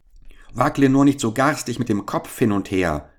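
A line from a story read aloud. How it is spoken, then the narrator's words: Small one, frightened cry. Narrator (German): rief der Kleine ängstlich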